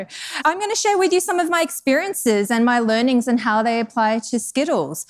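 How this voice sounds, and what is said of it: Australian accent. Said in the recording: “You may or may not have been able to place my accent... I'm actually from Australia originally”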